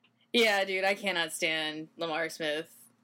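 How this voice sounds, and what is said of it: Usual voice. Nothing is said of it.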